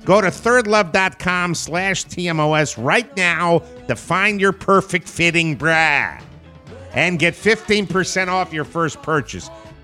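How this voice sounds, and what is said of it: Put-on Chicago accent. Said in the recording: “I did this bra commercial with a Chicago accent”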